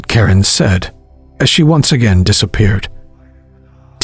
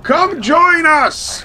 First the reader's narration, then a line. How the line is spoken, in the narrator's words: Uncle Charles boomed over the low chanting of the crowd